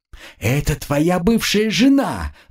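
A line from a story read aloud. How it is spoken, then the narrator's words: Shrill squeal. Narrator (Russian): взвизгнула Жанка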